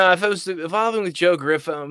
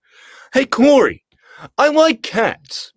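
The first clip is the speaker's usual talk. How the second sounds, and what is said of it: Alf character voice impression. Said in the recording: “you do your best impression of Alf ... my best elf impression ... it's the best one I've ever heard”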